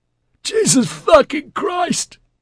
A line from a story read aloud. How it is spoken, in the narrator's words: Beard wailed